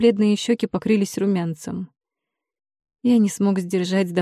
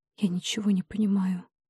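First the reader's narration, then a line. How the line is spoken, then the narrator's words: Whisper. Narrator (Russian): прошептала принцесса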